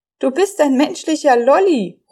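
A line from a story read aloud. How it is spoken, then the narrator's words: Calling out. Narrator (German): ruft Emil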